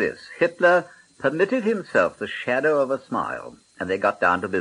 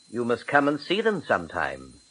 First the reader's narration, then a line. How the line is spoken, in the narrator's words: said Chamberlain